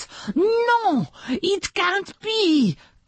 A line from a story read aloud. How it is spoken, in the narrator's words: cried Miss Coco